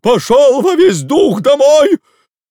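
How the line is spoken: Shouting in strained voice. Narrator (Russian): закричал кучеру не своим голосом

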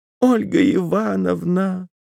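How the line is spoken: Breathless excited squeal. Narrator (Russian): взвизгнула она, тяжело дыша от волнения

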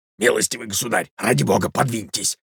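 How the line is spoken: Miserable whisper. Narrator (Russian): прошептал несчастный Иван Андреевич

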